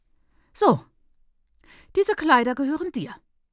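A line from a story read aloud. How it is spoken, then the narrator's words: Said sharply, housemother. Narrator (German): sagte die Hausmutter scharf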